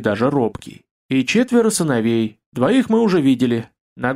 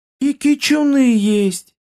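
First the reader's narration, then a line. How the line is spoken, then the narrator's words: Delighted cry. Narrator (Russian): Восторженно вскрикнула Нинила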